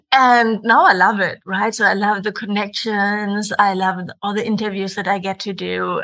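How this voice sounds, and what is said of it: German-accented English. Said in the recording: “my funny German accent”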